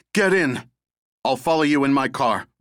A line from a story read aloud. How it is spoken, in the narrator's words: Russ shouted